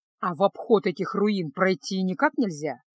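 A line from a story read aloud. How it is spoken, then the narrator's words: Plain. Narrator (Russian): спросил Кайл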